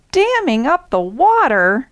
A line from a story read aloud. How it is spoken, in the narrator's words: exclaimed Zebra